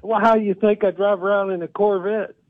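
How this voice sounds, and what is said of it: Texas accent. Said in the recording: “I'm part of an estate from Texas. Where do you think I get this accent?”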